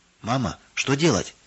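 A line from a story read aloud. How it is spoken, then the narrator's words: Anxious whisper. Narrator (Russian): волнуясь, шептала Нина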